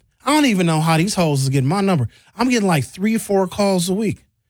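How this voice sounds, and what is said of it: Usual voice. Nothing is said of it.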